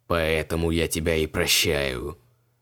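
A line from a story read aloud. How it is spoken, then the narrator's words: Gloomy. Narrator (Russian): мрачно сообщил Криол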